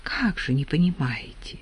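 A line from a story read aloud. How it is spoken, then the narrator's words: Low near-whisper. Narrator (Russian): Полголоса почти шепотом ответила Марья Трофимовна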